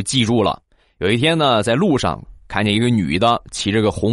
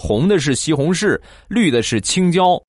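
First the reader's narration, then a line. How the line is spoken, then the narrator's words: Grandmother, plain. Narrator (Chinese): 奶奶指着西红柿说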